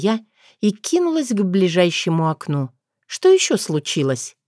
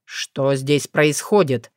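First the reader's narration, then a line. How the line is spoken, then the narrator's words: Stern question. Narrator (Russian): спросил строго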